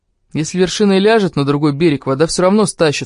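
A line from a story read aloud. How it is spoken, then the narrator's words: Plain. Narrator (Russian): сказал Бонильо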